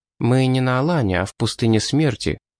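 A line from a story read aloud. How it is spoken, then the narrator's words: Calm objection. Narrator (Russian): спокойно возразил самурай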